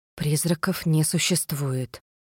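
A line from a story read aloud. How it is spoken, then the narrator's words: Hopeful whisper. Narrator (Russian): прошептала я, надеясь, что звук голоса разрушит иллюзию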